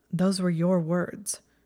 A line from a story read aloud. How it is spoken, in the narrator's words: Draco said stiffly